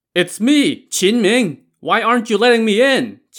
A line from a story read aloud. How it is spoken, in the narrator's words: Qin Ming shouted again